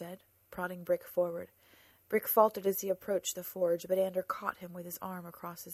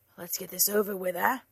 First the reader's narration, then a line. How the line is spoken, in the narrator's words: Jesper grunted